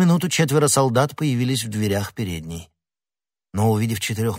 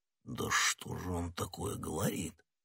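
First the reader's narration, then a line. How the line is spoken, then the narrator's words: Muttering. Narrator (Russian): пробормотал Портос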